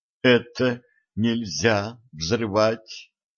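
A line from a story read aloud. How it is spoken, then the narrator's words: Unctuous babbling. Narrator (Russian): елейным голосом пролепетал дядя Ваня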